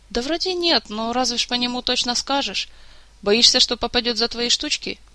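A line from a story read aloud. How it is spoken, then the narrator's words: Sighing. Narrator (Russian): Мафей вздохнул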